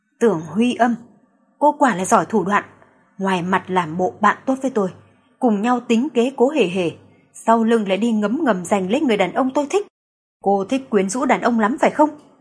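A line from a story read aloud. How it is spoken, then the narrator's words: Cold hiss through teeth. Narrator (Vietnamese): Doãn Tuyết Mạt … gương mặt lãnh khốc …, thanh âm rít ra từ kẽ răng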